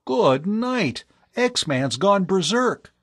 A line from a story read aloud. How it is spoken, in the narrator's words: Tom cried